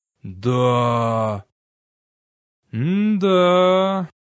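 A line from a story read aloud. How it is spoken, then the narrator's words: Forced out. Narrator (Russian): выдавил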